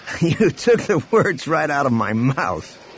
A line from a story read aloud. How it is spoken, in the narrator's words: Han laughed